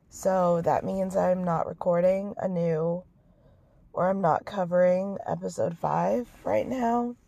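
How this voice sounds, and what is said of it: Hoarse, nearly lost voice. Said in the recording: “my voice is gone ... I am sick”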